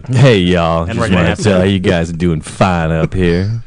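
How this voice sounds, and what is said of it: Put-on Southern US accent. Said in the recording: “You're going to come into this podcast with a southern accent.”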